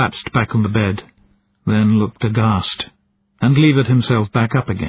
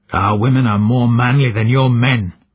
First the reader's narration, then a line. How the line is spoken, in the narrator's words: the woman sneered